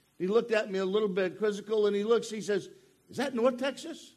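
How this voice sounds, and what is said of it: Maine accent. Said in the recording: “I am from Maine, and that is north ... he could tell by my accent that I wasn't from around here. And if you listen, you'll catch it.”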